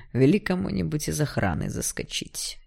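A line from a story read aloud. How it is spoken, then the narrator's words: Displeased mutter. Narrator (Russian): недовольно буркнул Игнат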